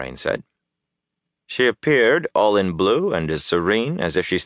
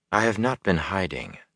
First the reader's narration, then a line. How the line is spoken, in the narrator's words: Moraine said calmly